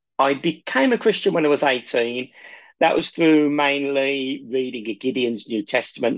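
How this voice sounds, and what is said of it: Birmingham accent. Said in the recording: “I'm originally from Birmingham, as quite a few people might be able to tell by the accent”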